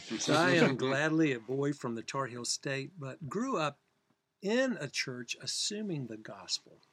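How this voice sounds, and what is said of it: Southern North Carolina accent. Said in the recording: “redneck Tar Heel accent comes from North Carolina”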